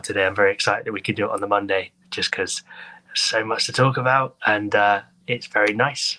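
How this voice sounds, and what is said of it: Hoarse voice with a cold. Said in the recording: “As listeners are probably able to tell by my voice, bit of a cold at the minute ... the pain in my voice ... this sore throat”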